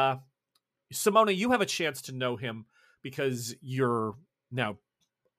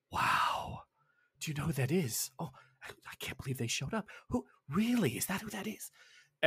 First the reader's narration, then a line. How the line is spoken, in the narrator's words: someone whispers